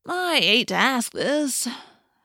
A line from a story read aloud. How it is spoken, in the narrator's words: Marco said with a groan